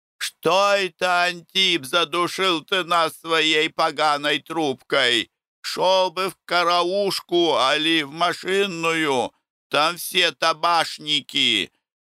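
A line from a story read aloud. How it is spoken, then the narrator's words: Woman's irritated shout. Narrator (Russian): Чтобы сорвать на ком-нибудь собственное неловкое положение, домнушка закричала на старика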